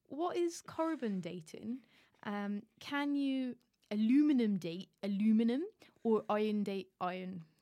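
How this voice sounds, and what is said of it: Put-on West Country accent. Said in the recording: “Why is Mark from the West Country? ... that is the impression that I can do. ... That's your go-to voice.”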